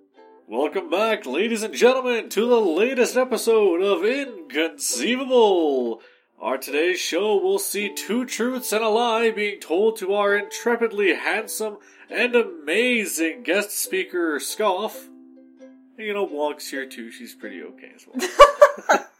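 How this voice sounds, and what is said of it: Game show host voice. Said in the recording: “game show voice. ... That was pretty good. ... God, that was awful.”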